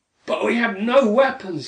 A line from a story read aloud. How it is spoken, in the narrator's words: Larry cried